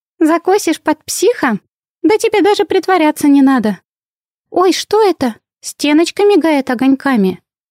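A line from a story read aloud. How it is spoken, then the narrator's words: Squeaked. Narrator (Russian): пискнула Винни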